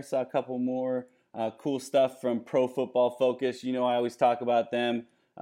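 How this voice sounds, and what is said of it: Fading, worn-out voice. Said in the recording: “if you can't tell, my voice is starting to fade here. It's been a long night recording.”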